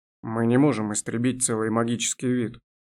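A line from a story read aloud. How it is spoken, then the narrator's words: Sighing. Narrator (Russian): вздохнул Элинарил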